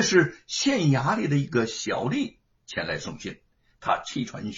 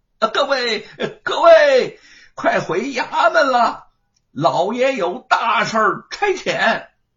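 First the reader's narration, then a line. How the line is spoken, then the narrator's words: Distant shout from behind. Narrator (Chinese): 后面传来了喊声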